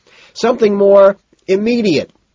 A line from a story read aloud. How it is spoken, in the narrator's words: Price shouts back